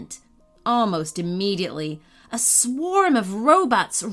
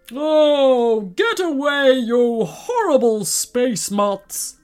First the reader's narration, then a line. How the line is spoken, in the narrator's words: bellowed the giant